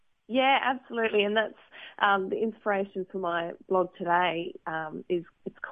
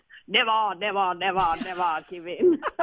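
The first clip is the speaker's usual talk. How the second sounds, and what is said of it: Imitates another person's voice. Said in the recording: “I should say it in my Winston Churchill voice. ... Very good. I thought that was him for a second then.”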